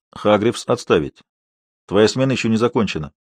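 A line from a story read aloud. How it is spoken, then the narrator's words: Sharp. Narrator (Russian): я резко произнес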